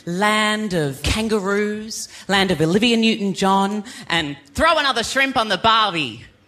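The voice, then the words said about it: Australian accent. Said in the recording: “my accent, I am from Idaho ... I'm kidding. I'm from Australia.”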